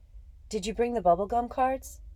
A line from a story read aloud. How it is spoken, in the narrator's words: I asked anxiously